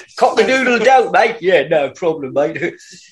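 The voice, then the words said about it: Put-on Cockney accent, needs work. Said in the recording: “But you got to work that Cockney accent in.”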